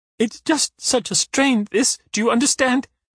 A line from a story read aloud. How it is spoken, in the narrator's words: sobs